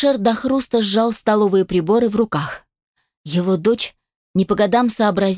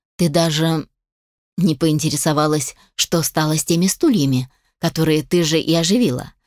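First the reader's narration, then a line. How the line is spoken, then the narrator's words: Calm voice. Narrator (Russian): спокойным голосом сказал Алишер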